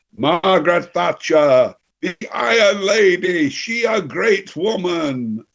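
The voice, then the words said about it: Unconvincing imitated Belgian accent. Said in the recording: “I know that's not a very Belgian sort of accent”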